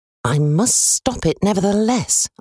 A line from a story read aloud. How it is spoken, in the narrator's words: I muttered